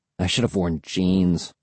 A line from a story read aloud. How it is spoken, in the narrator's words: I muttered